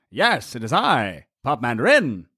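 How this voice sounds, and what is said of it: Old-time radio announcer voice. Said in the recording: “Old time radio voice.”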